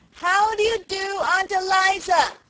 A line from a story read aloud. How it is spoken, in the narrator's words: she repeated at the top of her voice